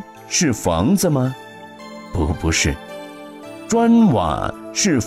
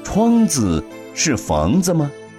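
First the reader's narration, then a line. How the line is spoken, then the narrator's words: Smiling, questioning back. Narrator (Chinese): 那仙比丘微微一笑，反问道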